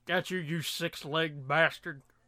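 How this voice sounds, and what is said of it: Elvis impression, sounds like Johnny Bravo. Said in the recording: “My Elvis impression is more Johnny Bravo than it is Elvis.”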